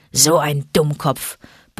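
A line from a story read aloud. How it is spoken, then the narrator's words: Grumbled. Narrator (German): brummte Vater Wolf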